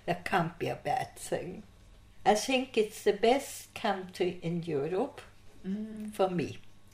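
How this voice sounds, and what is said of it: Foreign accent. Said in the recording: “I have never lost my foreign accent ... out comes my mother's accent”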